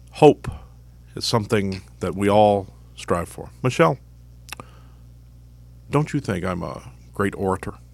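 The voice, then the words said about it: Barack Obama impression. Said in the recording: “I could do an Obama impression.”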